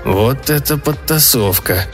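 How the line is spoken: Muttering. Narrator (Russian): пробормотал Энди

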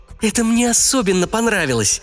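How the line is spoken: Cheerful. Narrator (Russian): весело заявила Денис

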